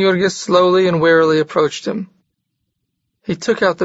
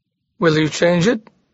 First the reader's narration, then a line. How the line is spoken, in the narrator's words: Jurgis demanded